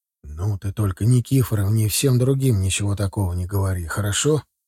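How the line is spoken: Quiet request. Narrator (Russian): попросил я ее тоже тихим голосом

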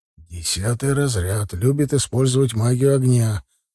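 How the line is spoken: Quiet instruction. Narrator (Russian): тихонько проинструктировать Рухис

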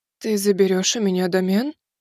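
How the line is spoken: Crestfallen voice. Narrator (Russian): упавшим голосом поинтересовалась восходящая

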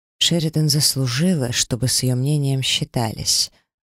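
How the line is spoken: Even tone. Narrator (Russian): ровным тоном проговорил Лейсар

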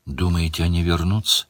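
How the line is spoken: Quiet question. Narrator (Russian): тихо спросила Делия

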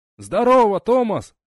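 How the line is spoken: Loud yell. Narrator (Russian): заорал Четвертушка

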